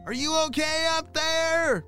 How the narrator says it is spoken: shouted his neighbor

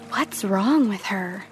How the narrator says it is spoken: them whispering

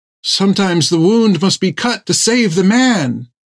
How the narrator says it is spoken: Thegum cried out

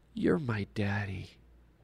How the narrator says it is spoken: in a sleepy little child's voice half whispered

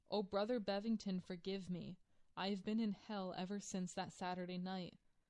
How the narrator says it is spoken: sobbed out

